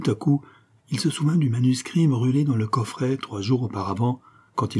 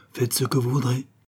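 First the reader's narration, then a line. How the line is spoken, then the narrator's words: Murmured. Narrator (French): murmura Monsieur de Châteaumaille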